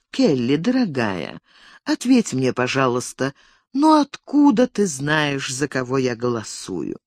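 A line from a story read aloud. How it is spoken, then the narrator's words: Calm. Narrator (Russian): миссис Келлер спокойно произнесла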